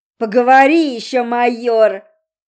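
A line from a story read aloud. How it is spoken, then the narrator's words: Booming, displeased voice. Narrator (Russian): прогремел над ним недовольный голос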